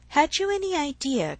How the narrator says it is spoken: cried Harriet

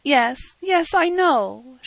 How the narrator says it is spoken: she said tearfully

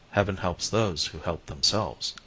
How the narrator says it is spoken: I murmured

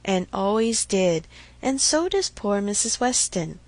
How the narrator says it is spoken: with half a sigh and half a smile

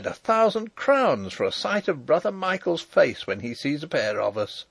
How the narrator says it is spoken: cried

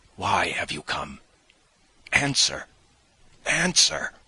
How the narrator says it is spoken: I cried, hardly knowing what I was doing

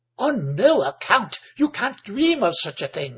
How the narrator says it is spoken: exclaimed Amanda

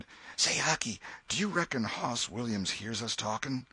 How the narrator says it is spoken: Tom whispered

